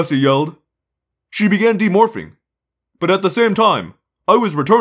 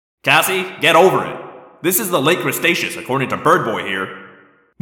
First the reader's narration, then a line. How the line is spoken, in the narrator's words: Marco said coldly